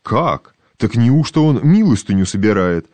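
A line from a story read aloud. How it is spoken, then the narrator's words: Exclaiming. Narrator (Russian): воскликнул он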